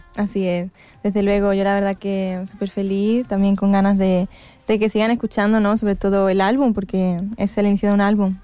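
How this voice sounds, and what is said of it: Mixed Mexican and Andalusian Spanish accent. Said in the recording (Spanish): “suenas a mexicana o a andaluz un poquito ... mi acento. Es difícil que se me vaya el acento.”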